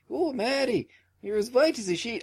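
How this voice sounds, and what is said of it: So-so put-on Irish accent. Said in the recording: “she could actually do a decent Irish accent ... My Irish accent is so-so”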